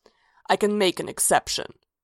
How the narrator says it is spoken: growled

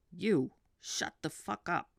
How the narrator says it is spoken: Ray snarled

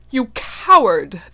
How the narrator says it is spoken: the Highland warrior exclaimed, blazing with righteous splendor

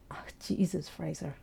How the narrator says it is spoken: Ray mutters

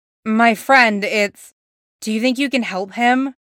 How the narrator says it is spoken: She sighs, a full body thing

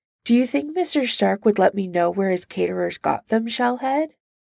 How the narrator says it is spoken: Iron Man laughs, the modulator flattening it out into a beep

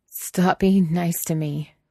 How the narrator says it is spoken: Wei Wuxian whined

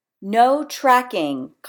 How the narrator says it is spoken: Kyle yells

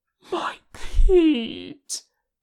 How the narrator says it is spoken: Tenkun moaned

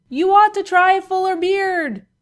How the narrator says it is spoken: shouted as he fell

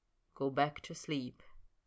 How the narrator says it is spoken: Snape said quietly

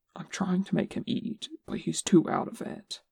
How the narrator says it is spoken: he whispered, mostly to Chum

